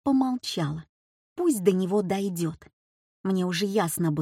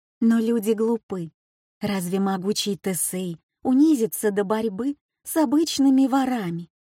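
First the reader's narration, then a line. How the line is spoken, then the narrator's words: Soft, soothing. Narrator (Russian): Успокаивая, добавила мягко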